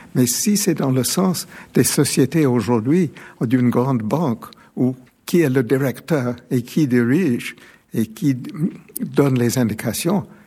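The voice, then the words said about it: Soft British accent in French. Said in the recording (French): “Le doux accent britannique.”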